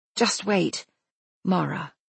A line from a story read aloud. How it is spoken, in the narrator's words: Rachel says, the name falling stiffly from her lips